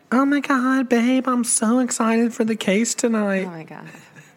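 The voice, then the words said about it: Cheesy exaggerated impression of co-host. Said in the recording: “not what I sound like ... You always do a really cheesy impression of me”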